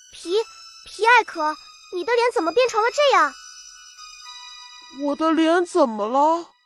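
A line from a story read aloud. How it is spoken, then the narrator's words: Terrified, trembling voice. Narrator (Chinese): 巴兹一脸惊恐地，他的声音在发颤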